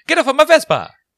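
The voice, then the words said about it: Exaggerated put-on Italian accent. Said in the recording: “With like a crazy Italian accent.”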